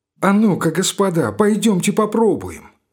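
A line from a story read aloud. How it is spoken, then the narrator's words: Pleading, eager. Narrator (Russian): сказал Лбов молящим тоном с загоревшимися глазами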